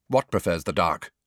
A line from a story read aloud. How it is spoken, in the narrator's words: Malfoy say sharply to Crabbe and Goyle, a trace of panic in his voice